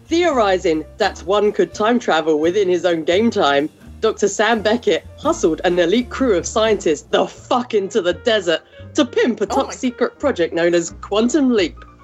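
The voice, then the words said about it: Put-on British accent. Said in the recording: “In my best British voice”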